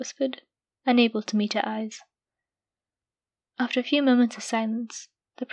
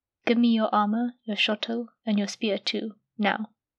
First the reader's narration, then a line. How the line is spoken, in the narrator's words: she said, her voice cold and stern, and so unlike her